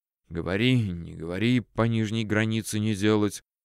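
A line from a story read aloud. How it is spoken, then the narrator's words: Displeased whisper. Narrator (Russian): недовольно шептал он себе под нос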